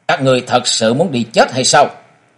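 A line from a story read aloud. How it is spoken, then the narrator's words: Cold youthful voice. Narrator (Vietnamese): Mỹ thiếu niên lạnh lùng nói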